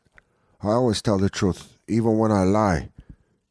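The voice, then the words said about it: Sneering Cuban accent, Tony Montana. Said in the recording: “Billy Ray sneered in a Cuban accent ... I'm Tony Montana”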